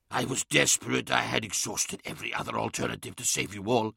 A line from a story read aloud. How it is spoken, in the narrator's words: hissed Magnus, his voice sending brittle cracks throughout the crystal